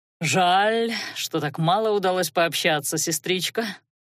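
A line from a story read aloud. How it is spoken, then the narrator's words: Sighing. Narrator (Russian): вздохнул Аларик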